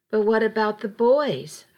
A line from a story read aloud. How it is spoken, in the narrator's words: I asked